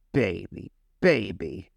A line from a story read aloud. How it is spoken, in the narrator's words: grumbled Harry